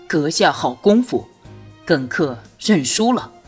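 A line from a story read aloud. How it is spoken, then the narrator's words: Deep, steady voice. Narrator (Chinese): 沉声道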